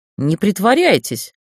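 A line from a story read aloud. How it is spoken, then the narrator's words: Indignant exclamation. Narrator (Russian): возмущенно воскликнул рыцарь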